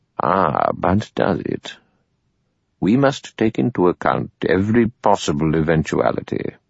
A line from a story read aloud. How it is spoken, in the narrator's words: Justice Wargrave, bringing a cold eye to bear upon him, murmured